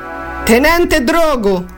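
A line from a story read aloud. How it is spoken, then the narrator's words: Shouted introduction. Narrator (Italian): gridò Giovanni per presentarsi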